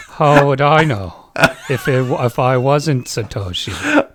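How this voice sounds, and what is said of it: Subdued, laid-back Australian accent. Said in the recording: “That's maybe the best Australian accent I've ever heard. ... A subdued Australian accent. ... a little bit more laid back, a little bit more colloquial.”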